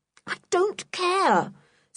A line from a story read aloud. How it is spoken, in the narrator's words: said George desperately